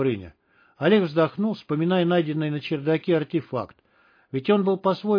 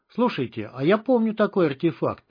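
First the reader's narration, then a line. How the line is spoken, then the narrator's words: Exclamation. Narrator (Russian): воскликнул Добрыня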